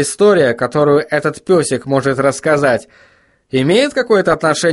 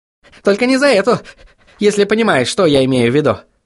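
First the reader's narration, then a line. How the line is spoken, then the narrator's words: Snorting shadow. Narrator (Russian): хмыкнула тень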